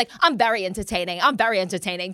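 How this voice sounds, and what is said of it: Imitated British accent, James Kennedy. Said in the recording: “I think it's his British accent when he's like”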